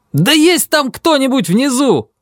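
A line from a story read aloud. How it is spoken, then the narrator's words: Shouting at top of lungs. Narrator (Russian): закричал я в третий раз во все горло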